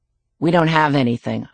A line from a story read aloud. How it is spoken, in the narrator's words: I say flatly